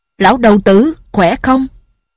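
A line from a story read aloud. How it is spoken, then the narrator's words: Joyful loud call. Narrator (Vietnamese): Lệnh Hồ Xung vui mừng lớn tiếng gọi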